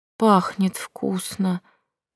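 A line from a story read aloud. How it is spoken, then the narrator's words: Whispered. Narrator (Russian): прошептала я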